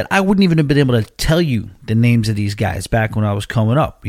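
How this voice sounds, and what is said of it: Long Island New York accent. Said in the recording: “you hear how I talk. If you think my accent is even bad right now ... when I did live there in Long Island ... the accent was way worse ... other people from New York talk”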